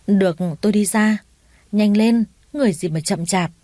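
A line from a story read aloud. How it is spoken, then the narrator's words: Stammering. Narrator (Vietnamese): Anh ta ấp úng nói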